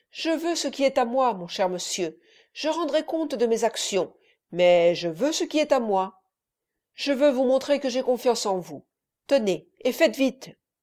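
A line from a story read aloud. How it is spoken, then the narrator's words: Sighing. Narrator (French): dit le notaire ... avec un soupir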